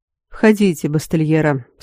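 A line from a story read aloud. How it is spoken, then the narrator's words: Dull, faint voice. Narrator (Russian): сказал Аранвен тусклым голосом, слабо напоминающим его обычный ровный тон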